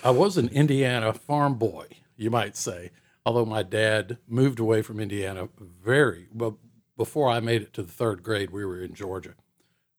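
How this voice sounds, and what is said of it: Heavy Southern American accent. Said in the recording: “I developed a heavy Southern accent. I'm probably the only child of the four in our family who actually has a pronounced Southern accent”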